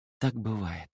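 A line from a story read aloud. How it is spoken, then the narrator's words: Quiet. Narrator (Russian): тихо сказала Сайна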